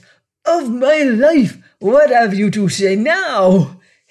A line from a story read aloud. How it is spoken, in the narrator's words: he cried, his voice husky